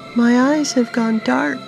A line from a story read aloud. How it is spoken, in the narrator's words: whimpered